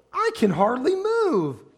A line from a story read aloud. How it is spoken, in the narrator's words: he exclaimed